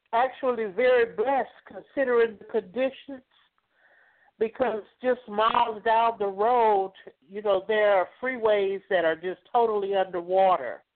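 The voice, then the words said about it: Regional accent. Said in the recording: “I love these accents.”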